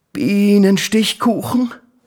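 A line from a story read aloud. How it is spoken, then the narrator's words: Homesick exclamation. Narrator (German): rief der kleine Tiger, und er bekam so ein Heimwehflimmern auf der Zunge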